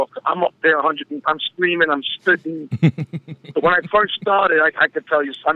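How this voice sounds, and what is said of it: Hoarse, worn-out voice. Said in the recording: “Hear from my voice. My voice is shot.”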